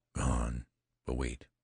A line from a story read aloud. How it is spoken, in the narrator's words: whispered Jones